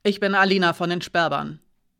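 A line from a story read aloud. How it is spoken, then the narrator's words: Sharp speech. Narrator (German): sagte scharf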